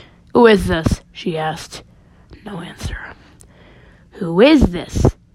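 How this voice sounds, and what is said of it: Usual voice. Nothing is said of it.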